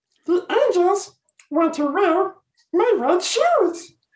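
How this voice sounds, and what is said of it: Sings in an Elmo character voice. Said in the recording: “Elmo impersonation”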